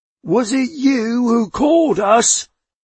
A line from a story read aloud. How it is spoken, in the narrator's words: yelled the older man